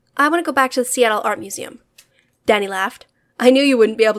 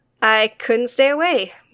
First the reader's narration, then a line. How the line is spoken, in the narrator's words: Mita laughed